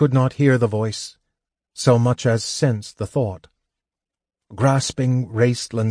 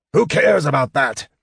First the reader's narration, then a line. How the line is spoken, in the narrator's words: Caramon roared